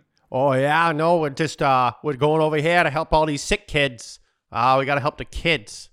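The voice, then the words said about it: Put-on South Boston Irish accent. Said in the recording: “committed to the bit with a South Boston Irish accent ... That's South Boston.”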